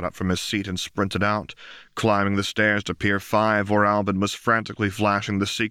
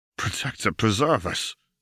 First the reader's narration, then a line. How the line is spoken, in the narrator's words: Darman muttered